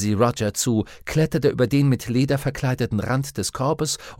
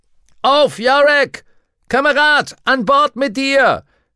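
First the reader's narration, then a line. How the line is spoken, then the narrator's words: Shouting. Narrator (German): schrie Lee Scorsby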